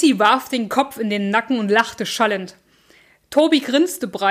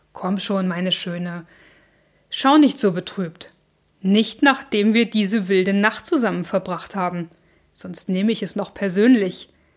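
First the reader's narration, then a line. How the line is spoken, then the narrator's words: Purring, cooing voice. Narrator (German): sagte mit einer säuselnden Stimme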